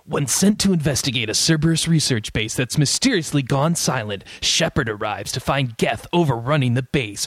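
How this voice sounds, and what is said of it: Smooth announcer voice. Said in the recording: “in your nice announcer voice”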